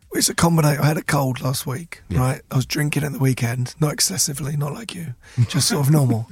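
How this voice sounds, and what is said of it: Hoarse, nearly lost voice. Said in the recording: “as you can hear, I have lost my voice. ... the voice is just...”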